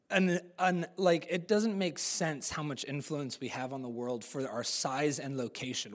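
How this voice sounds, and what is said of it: American-sounding English accent. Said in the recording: “I sound American, but I'm more Kiwi than I am American. My accent,”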